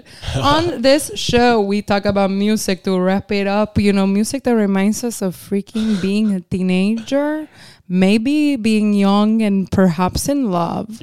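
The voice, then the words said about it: Miami accent. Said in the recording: “You're so from Miami. ... that accent is so my, that's you like, know, that's Miami. ... You slip into it.”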